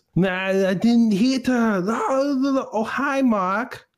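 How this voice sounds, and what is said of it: Imitates another person's voice. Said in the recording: “I'm very terrible at impersonation”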